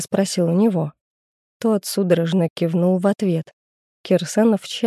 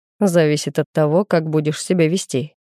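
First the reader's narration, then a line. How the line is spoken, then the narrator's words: Wry snort. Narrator (Russian): хмыкнул Александр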